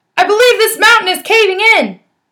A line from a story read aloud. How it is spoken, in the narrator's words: He got scared and hollered